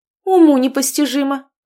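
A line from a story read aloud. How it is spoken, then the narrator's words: Accountant exclaiming. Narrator (Russian): воскликнула бухгалтер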